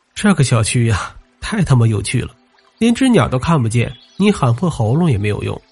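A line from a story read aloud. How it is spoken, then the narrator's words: Laughing aloud. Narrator (Chinese): 他不禁笑出了声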